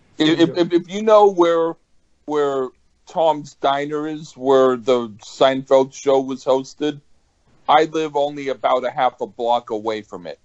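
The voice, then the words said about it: New York Brooklyn-type accent. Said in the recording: “You sound like you have that, like, accent over there, you know, or for, like, some type of Brooklyn type”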